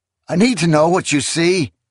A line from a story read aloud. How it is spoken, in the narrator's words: the man cried